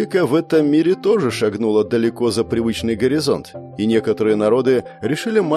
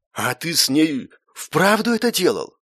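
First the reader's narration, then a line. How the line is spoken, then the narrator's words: Astonished breathless exclamation. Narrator (Russian): изумленно выдохнул истинный наследник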